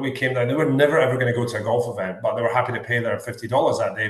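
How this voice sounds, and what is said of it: Scottish accent. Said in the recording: “your accent ... growing up in Scotland”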